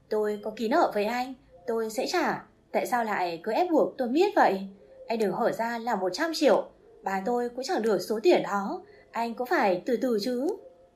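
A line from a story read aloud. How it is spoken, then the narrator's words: Angry shouting. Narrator (Vietnamese): Tôi tức giận quát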